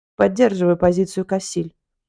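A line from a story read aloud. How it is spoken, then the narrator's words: Stern. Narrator (Russian): добавил свое мнение Мистиф Ноган суровым тоном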